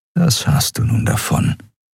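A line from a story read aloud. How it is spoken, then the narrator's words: Whisper inside head. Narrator (German): flüsterte eine Stimme in seinem Kopf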